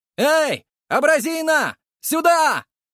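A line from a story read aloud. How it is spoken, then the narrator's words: Shouting. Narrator (Russian): выкрикнул я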